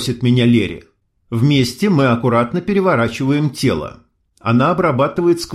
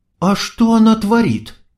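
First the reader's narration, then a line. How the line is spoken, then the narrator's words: Bewildered whisper. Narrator (Russian): растерянно шепчет Ксения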